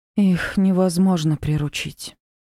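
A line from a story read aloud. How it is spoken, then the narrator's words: Breathed out. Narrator (Russian): выдохнула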